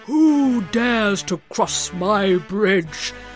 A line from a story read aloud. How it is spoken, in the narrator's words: roared the troll